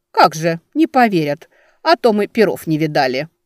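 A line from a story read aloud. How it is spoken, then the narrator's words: Grumbled, old noblewoman. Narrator (Russian): бурчала боярыня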